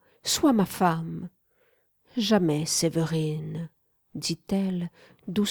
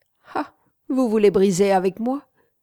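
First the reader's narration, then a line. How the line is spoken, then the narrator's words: Mocking tone. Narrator (French): fit-elle d'un ton railleur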